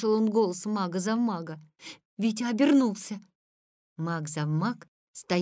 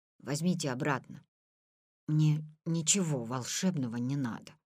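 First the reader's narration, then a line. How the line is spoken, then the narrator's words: Barely audible whisper. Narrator (Russian): прошептал он еле слышно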